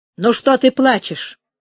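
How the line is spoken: Rough. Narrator (Russian): грубо сказал Олег

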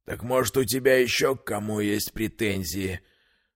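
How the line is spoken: Spoken through gritted teeth. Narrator (Russian): процедил сквозь зубы Крапива

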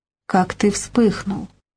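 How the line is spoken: Mumbling. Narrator (Russian): Игнат забормотал

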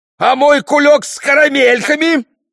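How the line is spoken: Wailed. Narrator (Russian): вопил он

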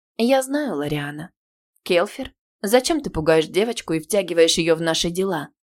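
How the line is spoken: Soft, smiling mentor. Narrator (Russian): мягко улыбнулась наставница

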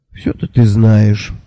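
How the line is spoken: Sighed. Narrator (Russian): вздохнул я

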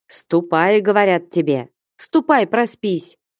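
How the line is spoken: Shouted. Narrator (Russian): крикнул Потап Максимыч

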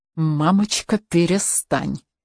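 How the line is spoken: Through gritted teeth. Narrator (Russian): процедила сквозь зубы Каролина

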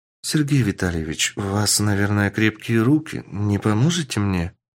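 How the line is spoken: Shy, sweet-voiced young woman. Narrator (Russian): Смущаясь, сладким голосом сказала девушка

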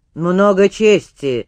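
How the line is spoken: Spiteful. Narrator (Russian): злобно заметил Воротынский

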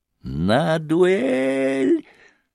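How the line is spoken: Breathless spluttering old man shrieking. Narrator (Russian): завопил опять старикашка, задыхаясь и брызгаясь с каждым словом слюной

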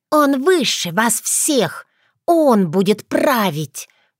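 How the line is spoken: Hissing. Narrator (Russian): прошипела фея

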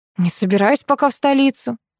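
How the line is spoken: Sighing. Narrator (Russian): вздохнула я

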